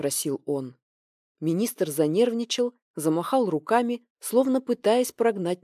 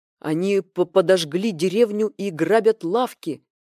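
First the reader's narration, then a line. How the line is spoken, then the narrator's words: Furious emperor barking. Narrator (Russian): Император разъяренно рявкнул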